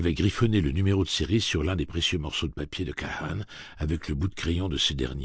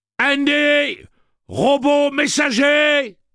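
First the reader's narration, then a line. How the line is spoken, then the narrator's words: Shouting. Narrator (French): cria Eddie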